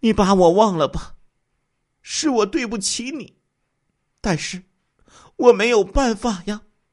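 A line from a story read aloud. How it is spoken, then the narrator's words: Woman sobbing softly. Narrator (Chinese): 王春兰嘤嘤嘤的哭起来，说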